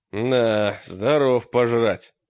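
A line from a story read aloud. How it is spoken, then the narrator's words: Grumbling. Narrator (Russian): буркнул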